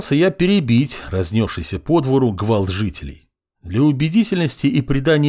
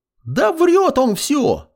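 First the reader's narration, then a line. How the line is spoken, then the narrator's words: Squeaking. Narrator (Russian): запищал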